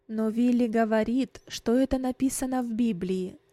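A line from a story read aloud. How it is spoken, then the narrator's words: Plain. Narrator (Russian): сказал отец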